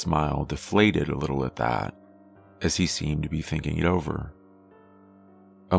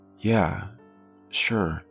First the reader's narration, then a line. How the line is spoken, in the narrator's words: replied uneasily